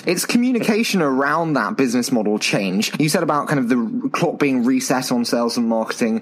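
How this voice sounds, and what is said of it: British accent. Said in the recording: “my terrible British accent”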